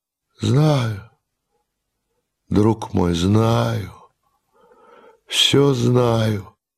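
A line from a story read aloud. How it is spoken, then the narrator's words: Weak, melancholy, exhausted voice. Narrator (Russian): отвечал слабым, тоскливым голосом изнуренный герой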